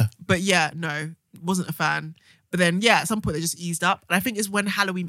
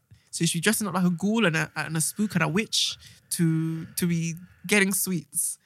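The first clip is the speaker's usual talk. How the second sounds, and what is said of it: Poorly done put-on accent. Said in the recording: “That's a terrible accent.”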